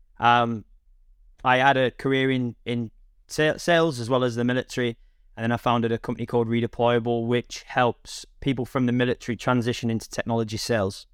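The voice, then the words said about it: Northwest English accent. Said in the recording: “my accent isn't telling. I'm originally from the northwest of England”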